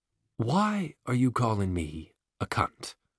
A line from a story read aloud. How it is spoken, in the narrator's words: says softly, with no hint of rancor, a very bad sign indeed